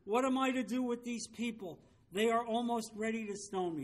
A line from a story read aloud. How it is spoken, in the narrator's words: Then Moses cried to the Lord